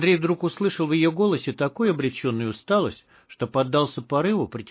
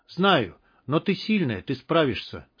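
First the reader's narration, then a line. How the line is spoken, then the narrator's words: Calm, confident. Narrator (Russian): спокойно и уверенно сказал он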